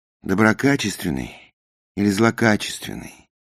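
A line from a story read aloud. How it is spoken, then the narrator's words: Tired question. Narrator (Russian): поинтересовался я устало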